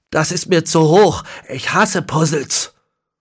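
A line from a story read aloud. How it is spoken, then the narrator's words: Pained groan, then calling. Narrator (German): stöhnte er gequält auf und rief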